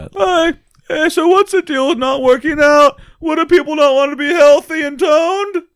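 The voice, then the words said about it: Imitates another person's voice. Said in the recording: “my famous Jerry Seinfeld impression. This is healthy weightlifting Jerry Seinfeld”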